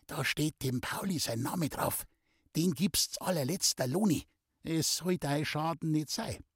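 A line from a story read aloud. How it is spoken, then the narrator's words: Secretive whisper. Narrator (German): flüsterte ihm zu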